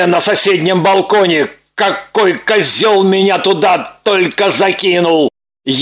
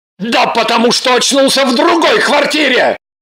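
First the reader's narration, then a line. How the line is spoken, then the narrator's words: Agitated shout. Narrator (Russian): Явно психуя закричал перебинтованный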